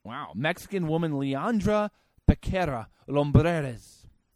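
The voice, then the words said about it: Put-on Spanish accent. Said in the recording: “You like my Spanish accent there?”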